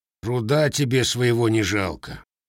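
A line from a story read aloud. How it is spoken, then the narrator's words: Blacksmith grumbling. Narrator (Russian): проворчал кузнец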